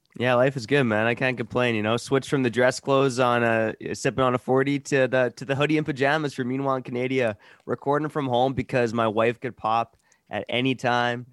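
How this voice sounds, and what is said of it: Put-on Canadian accent. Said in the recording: “you sound Canadian, bro. ... You're getting better, man. You're getting better at the Canadian accent.”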